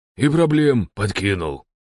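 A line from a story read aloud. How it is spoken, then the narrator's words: Grumbling. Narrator (Russian): пробурчал Добрыня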